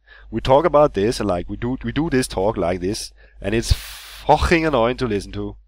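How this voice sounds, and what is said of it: Put-on Danish English accent. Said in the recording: “the typical Danish English accent ... that's like Liverpudlian ... that's quite chavvy though”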